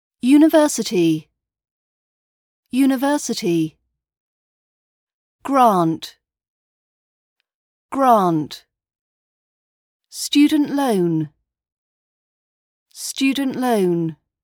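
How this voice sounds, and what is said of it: British accent. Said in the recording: “British accent training”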